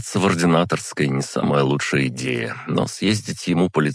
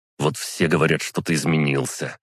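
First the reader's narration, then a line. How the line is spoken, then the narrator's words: Strained through teeth. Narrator (Russian): процедил он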